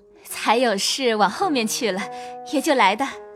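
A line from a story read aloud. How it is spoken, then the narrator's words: Laughing. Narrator (Chinese): 尤二姐笑道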